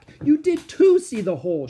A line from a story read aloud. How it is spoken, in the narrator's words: she shouted